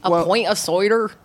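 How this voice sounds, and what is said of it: Put-on Southwest English accent. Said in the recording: “That's a sort of a Southwest accent”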